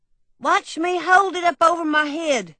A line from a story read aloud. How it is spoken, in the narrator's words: George hollered